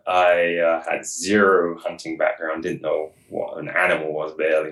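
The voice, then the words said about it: English accent, fast speech. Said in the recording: “I didn't even realize there was an accent ... I kind of speak fast sometimes and mumble, but I'm originally from England”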